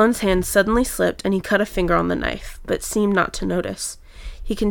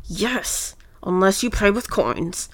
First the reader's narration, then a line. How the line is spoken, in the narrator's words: Sloane growled